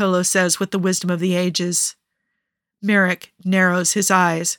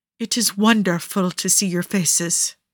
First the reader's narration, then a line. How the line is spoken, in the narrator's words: he says tenderly